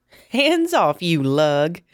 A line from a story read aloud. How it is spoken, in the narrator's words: said, feigning laughter